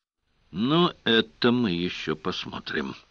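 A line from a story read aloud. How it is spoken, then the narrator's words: Grumbling. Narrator (Russian): проворчал Сварог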